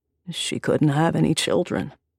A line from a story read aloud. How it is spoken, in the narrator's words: he said gravely